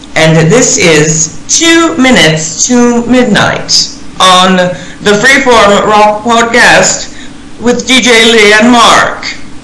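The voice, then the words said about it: Put-on British accent. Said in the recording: “I'll say it in my British accent”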